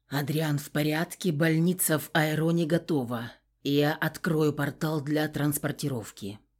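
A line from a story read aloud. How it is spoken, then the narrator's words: Whispered. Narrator (Russian): он прошептал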